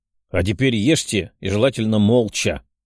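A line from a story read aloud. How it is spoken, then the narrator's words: Growling. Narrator (Russian): прорычал патриарх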